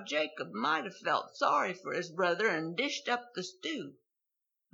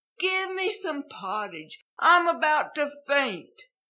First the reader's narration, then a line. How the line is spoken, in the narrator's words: Esau moaned